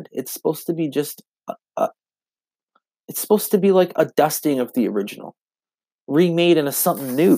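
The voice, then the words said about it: Stuttering, slightly drunk speech. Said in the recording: “I'm stuttering. I'm a little drunk right now.”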